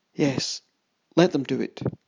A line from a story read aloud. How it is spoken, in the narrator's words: Shaking with shock, I muttered